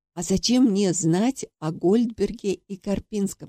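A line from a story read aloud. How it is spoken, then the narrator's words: Plain question. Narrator (Russian): спросила я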